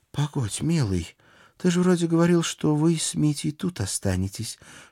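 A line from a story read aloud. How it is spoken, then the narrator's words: Whisper in the ear. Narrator (Russian): шепнула на ухо моя Алена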